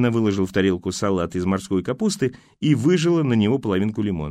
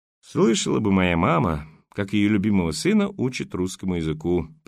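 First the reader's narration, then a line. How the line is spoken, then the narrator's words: Mock sigh. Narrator (Russian): притворно вздохнул Данилов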